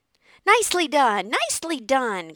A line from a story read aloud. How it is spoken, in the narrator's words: cried the goose